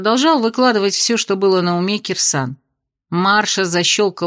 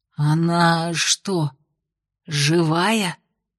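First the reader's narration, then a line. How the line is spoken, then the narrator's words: Whispered question. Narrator (Russian): уточнил он у Венди шепотом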